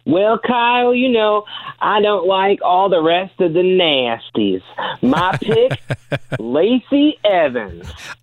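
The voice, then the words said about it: Imitates another person's voice. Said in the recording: “I like that impression. Well done.”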